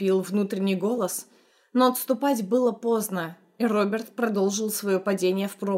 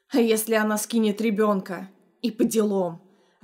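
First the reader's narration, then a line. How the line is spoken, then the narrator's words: Angry snap. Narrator (Russian): огрызнулся он зло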